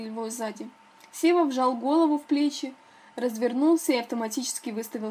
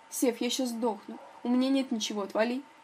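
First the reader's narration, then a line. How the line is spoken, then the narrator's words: Muttering. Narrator (Russian): буркнул Сева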